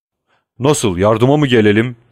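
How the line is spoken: Crying out. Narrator (Turkish): diye haykırdı Wilford

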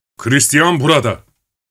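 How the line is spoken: Shouting. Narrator (Turkish): diye bağırdı

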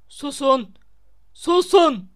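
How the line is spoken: Roaring. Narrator (Turkish): diye kükredi Snape

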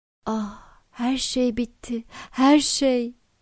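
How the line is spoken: Crying out in despair. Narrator (Turkish): diye haykırarak

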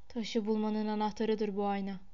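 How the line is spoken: Murmured. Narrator (Turkish): diye mırıldandı

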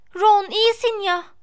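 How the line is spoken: Shouted. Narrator (Turkish): diye bağırdı

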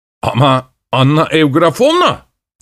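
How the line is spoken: Shouting. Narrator (Turkish): diye bağırdı

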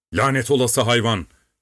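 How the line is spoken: Shouted. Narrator (Turkish): diye bağırdı

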